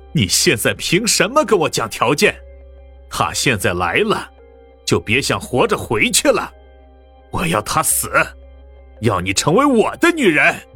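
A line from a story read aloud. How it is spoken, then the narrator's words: Sudden loud laughter. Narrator (Chinese): 蒋一贤突然大笑了起来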